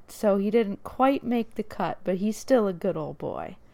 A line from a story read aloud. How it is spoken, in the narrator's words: laughed and said